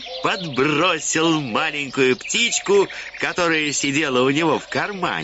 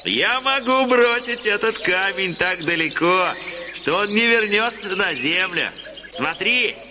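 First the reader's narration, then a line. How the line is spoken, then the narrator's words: Laughing reply. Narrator (Russian): Портняшка ответил, смеясь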